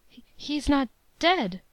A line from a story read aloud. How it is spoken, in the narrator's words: I stammered out